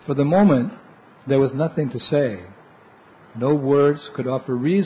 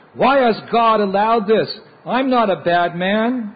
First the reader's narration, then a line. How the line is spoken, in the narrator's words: he screamed